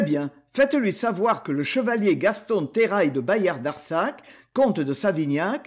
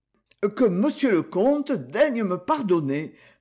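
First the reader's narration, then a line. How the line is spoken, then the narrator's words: Servant stammering. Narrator (French): balbutia le valet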